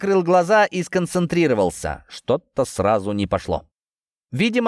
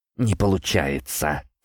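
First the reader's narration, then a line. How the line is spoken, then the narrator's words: Quiet. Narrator (Russian): тихо произнес я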